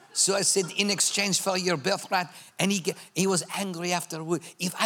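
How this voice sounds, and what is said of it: Usual voice. Nothing is said of it.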